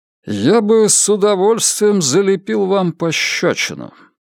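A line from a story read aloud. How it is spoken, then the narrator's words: Through clenched teeth. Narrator (Russian): процедил он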